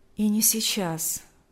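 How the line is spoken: Calm addition. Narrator (Russian): спокойно добавил Алексей

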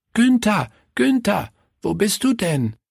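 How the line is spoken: Called out. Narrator (German): rief Willi

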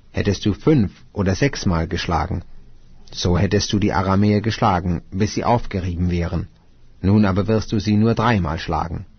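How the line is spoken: Angry holy man. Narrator (German): Da wurde der Mann Gottes zornig auf ihn und sprach

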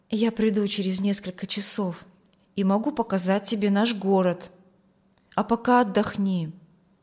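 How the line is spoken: Quiet, tender words. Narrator (Russian): Вильям тихо сказал

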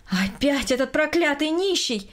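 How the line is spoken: Loud indignant exclamation. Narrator (Russian): громко воскликнула Берта Петровна, увидев перед собой мужчину

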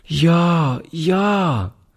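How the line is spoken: Child calling out. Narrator (German): rief die Kleine

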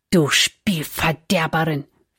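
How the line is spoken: Offended whisper. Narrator (German): flüsterte die Freundin beleidigt

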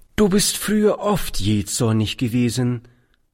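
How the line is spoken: Plain. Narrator (German): sagte die Schwester

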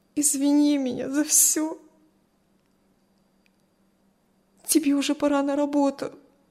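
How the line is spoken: Forced out through tears. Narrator (Russian): Все еще сквозь слезы выдавила Кристи

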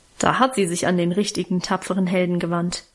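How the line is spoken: Mocking. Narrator (German): meinte ich spöttisch

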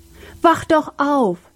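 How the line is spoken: Scream. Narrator (German): schrie Sam

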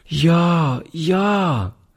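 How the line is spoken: Child calling. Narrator (German): rief die Kleine

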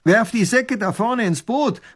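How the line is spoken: Robber calling out. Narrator (German): ruft der Räuber tunlichst gut

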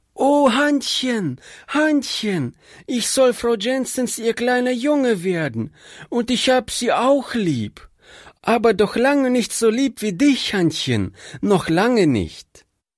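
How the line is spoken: Little boy calling out. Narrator (German): der kleine Bursche … rief

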